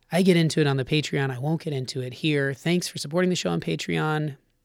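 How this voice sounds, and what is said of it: Voice in poor condition. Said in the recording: “As you can hear, my voice is a little less than great”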